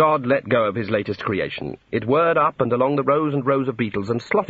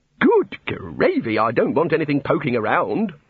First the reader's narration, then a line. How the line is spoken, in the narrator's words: said the god testily